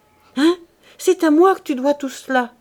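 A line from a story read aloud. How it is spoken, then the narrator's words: Triumphant exclamation. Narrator (French): s'écria-t-elle avec une explosion de triomphe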